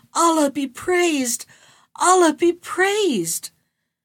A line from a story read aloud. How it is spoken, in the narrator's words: I was so overcome with joy at this sight that I … cried out